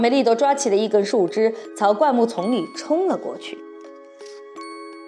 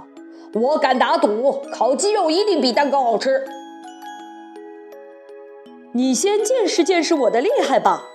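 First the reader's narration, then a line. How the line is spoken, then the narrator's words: Wolf shouting. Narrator (Chinese): 大灰狼喊道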